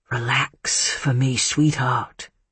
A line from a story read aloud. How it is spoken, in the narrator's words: he whispered